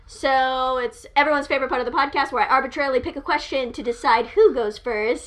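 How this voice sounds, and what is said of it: Upbeat customer-service podcast voice. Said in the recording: “podcast voice ... It's basically my normal like customer service voice with just like an extra oomph”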